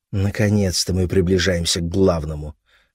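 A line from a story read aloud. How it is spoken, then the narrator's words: Muttered. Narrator (Russian): пробормотала Джуди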